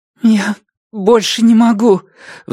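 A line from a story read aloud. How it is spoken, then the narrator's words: Pleading. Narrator (Russian): взмолилась Ди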